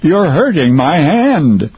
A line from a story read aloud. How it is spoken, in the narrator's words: Gary shouted now